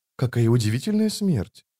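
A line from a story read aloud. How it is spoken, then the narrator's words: Muttered. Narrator (Russian): пробормотала она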